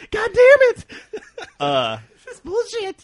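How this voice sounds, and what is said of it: Screaming young teenage gamer voice. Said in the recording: “the 13-year-old voice ... The 13-year-old yeah. screaming voice?”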